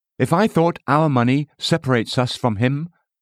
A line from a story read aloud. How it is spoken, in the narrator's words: my wife said earnestly